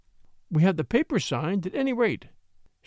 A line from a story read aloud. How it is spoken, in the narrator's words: she sighed, trying to revive the dying spark of humor